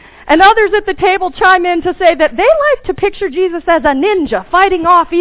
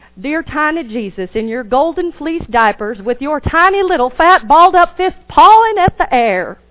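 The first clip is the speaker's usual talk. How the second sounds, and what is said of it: Put-on country accent. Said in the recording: “I cannot do that without a country accent.”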